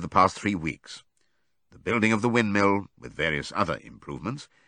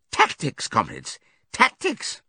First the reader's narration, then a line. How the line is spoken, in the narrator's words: with a merry laugh